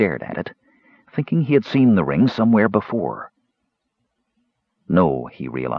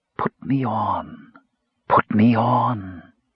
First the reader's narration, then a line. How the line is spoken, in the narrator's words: heard the silken whisper